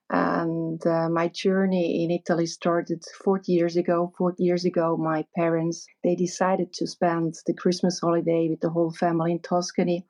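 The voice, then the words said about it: Swiss non-native English accent. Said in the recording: “your accent. It's not exactly Italian ... I'm not Italian at all. I'm from Zurich, from Switzerland.”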